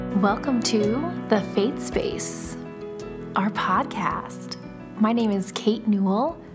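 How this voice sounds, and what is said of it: Smooth, sensual radio-style voice. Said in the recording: “That was so smooth. You have such a smooth podcasting voice. ... Is that nice and sensual for our listeners? ... it is my radio voice. ... it's a nice radio voice.”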